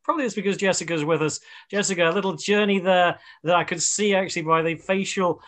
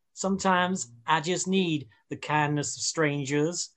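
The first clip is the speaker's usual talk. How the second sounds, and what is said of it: Put-on American accent. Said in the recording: “I don't know why I'm doing an American accent.”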